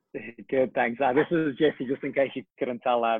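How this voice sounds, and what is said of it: Speaks with a regional accent. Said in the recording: “Maybe the accent was a good ... The accent. I know the accent quite well. A few colleagues from your part of the world”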